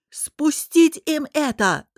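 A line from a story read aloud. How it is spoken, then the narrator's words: Yelled. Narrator (Russian): заорал Ранмир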